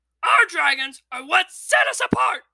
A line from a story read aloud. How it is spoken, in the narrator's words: bellowed Gobber